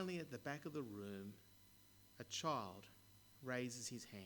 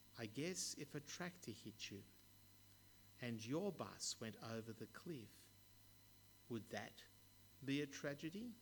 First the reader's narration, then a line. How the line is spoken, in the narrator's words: In a quiet voice, he says